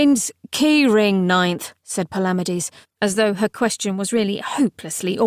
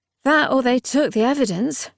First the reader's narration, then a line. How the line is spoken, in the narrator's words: said his cavalier gloomily